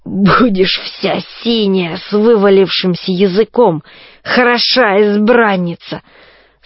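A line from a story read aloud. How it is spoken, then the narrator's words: Hoarse barking laugh. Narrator (Russian): Страшный гость снова хохотнул, хрипло, будто дряхлая собака залаяла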